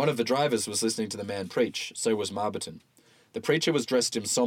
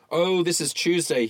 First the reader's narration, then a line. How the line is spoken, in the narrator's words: he yelled to the preacher